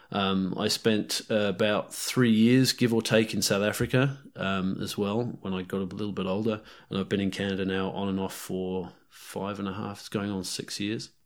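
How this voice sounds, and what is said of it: Mixed British, South African, Kiwi accent. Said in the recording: “my accent's a bit of a medley ... I sound completely British ... I sound completely South African ... that's when the Kiwi comes out”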